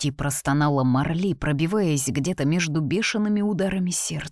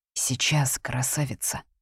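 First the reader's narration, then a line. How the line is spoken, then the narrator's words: Breathy exhale. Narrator (Russian): выдохнул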